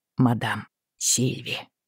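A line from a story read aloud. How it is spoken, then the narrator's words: Quiet reply. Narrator (Russian): ответил он тихо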